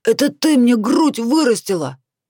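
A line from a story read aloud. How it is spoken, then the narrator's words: Yelling. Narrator (Russian): Заорал он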